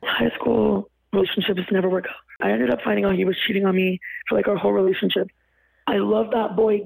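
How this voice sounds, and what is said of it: Hoarse, fading voice. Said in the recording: “I'm losing my voice. ... I'm just losing my voice.”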